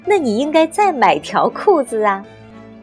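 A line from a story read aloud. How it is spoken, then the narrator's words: Roaring laughter. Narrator (Chinese): 邓田捧腹大笑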